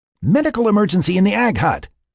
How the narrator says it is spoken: Lynn bellowed over her comset

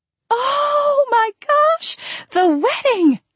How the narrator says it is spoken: Andrea squealed

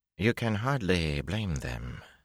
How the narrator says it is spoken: Aginan drawled

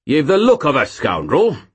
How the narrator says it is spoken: boomed the man

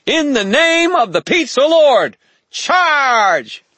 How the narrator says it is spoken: shouted, voice shrill

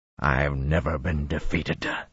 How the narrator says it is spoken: he snarled

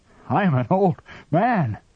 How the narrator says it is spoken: panted

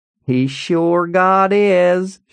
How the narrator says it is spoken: she said, drawling

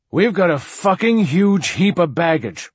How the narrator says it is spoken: Martin Silenus said loudly

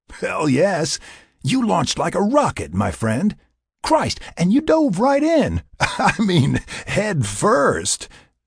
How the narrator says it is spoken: Jack laughed

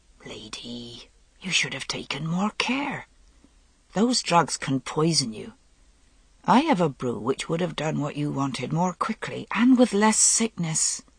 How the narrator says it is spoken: She said in an undertone to Morgaine

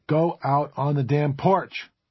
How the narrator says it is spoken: Liz snapped

